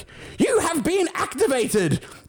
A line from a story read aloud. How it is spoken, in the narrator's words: I heard a voice yell